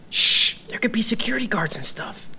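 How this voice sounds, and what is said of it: Whispering. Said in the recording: “Why are you whispering?”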